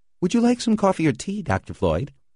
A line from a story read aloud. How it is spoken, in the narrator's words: she asked cheerfully